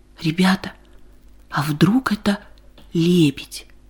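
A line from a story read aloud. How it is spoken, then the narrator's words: Excited whisper breaking silence. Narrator (Russian): Нарушил тишину возбужденный шепот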